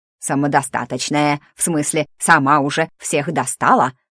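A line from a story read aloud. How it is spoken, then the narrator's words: Snide reply. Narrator (Russian): ехидно отозвался Сундук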